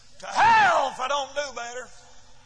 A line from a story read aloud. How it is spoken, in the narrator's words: he laughed and said